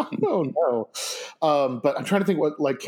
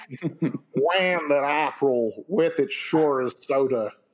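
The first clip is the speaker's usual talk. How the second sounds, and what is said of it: Put-on Tennessee accent. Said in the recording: “Canterbury Tales in a Tennessee accent”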